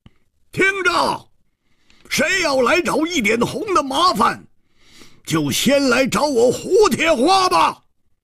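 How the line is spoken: Wild roar. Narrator (Chinese): 他狂吼着说

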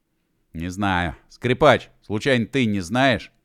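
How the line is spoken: Booming, resonant hum. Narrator (Russian): Прогудело в полушарии

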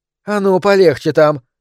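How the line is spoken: Sharp rebuke, woman. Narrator (Russian): прикрикнула на него рыжеволосая женщина

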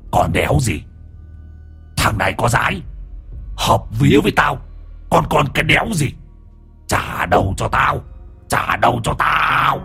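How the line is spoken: Growling voice. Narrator (Vietnamese): Hoàng Anh giọng gầm gừ

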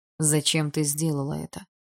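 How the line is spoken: Plain. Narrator (Russian): спросил Барс

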